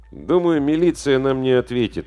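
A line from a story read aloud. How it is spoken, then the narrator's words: Gloomy. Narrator (Russian): мрачно сказал Димка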